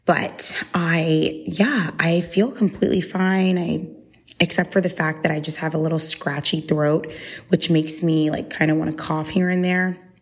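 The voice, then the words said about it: Slightly congested, scratchy-throated voice. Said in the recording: “I feel like my throat has been a little scratchy and I have a bit of a cough ... I sound probably completely fine or maybe a tiny little bit congested”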